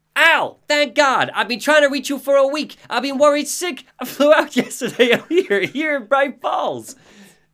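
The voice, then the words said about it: Cartoonish character voice. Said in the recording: “You're like a cartoon character from the 90s ... That is how ... sounds. He sounds like a cartoon character.”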